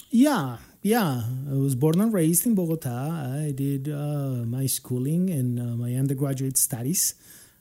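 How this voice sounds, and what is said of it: Non-native English accent, Colombian Spanish. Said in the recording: “I have an accent that is probably not the accent of a native speaker.”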